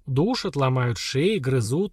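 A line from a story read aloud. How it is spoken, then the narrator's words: Gloomy explanation. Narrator (Russian): мрачно пояснил Антук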